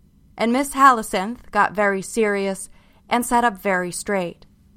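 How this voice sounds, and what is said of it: Usual voice. Nothing is said of it.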